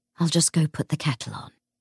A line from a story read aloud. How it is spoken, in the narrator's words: James sighed